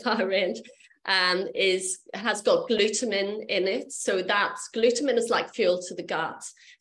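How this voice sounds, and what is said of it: Speaks with a noticeable accent. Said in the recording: “sorry, it's my accent”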